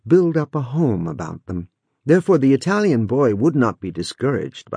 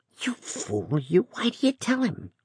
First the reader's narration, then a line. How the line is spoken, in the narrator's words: whispered a shrewd little Yankee